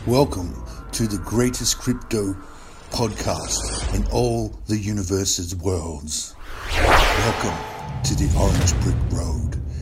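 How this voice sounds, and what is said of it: Deliberately deep voice. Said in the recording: “I'm using this deep voice”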